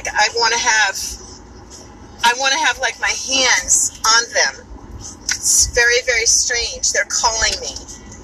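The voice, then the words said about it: New York accent. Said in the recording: “my New York accent when I say coffee”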